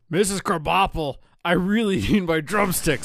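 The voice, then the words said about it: Imitates another person's voice. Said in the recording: “my best Arnie impression... I can't do it”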